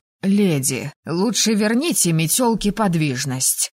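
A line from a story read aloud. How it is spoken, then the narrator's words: Hoarse joint plea. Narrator (Russian): как-то сипло попросили ректор и декан Сизари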